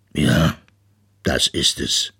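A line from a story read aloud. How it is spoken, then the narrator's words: Father polar bear sighing. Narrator (German): seufzte Papa Eisbär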